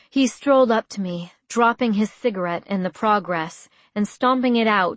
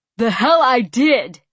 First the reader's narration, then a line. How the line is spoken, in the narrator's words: he yelled back